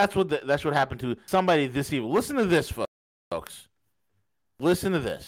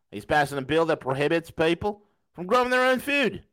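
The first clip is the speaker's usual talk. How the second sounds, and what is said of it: Put-on Australian accent. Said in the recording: “I'm going to put on my Aussie accent.”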